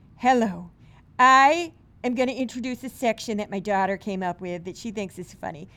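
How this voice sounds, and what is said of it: Goofy voice with St. Louis accent. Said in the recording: “time to do the goofy voice ... I'm going to do my mom again ... I have a very classic St. Louis accent”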